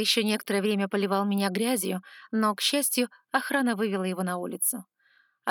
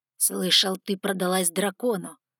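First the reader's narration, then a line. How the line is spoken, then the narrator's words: Hissing. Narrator (Russian): прошипел он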